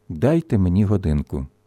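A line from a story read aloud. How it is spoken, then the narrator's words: Quiet, weak female voice. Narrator (Ukrainian): господиня блідими устами тихо мовила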